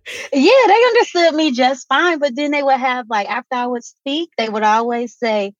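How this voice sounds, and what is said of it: Southern American accent. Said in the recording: “You have a beautiful Southern accent. ... everyone's told me that I sound Southern.”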